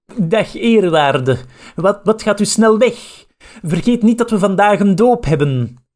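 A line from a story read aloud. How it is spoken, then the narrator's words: Surprised call. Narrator (Dutch): Hij was verbaasd en riep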